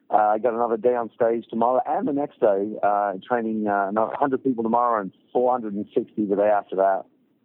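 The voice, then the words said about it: Raspy, worn voice. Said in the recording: “You hear my raspy old voice.”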